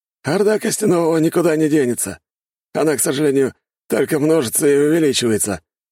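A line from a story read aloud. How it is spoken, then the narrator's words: Hunter's snort. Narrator (Russian): хмыкнул охотник Дэн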